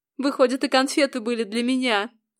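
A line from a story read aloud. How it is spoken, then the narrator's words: Plain. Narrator (Russian): сказала я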